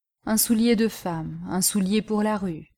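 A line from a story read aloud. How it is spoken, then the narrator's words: Old man murmuring. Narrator (French): murmura le vieillard sans lever les yeux de son ouvrage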